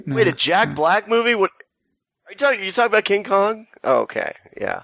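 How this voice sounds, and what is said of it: Imitates another person's voice. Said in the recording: “That's a new character I'm working on. ... I'm doing my Zach Galifianakis impression of a guy doing it.”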